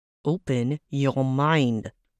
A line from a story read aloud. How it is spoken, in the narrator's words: the prince said through gritted teeth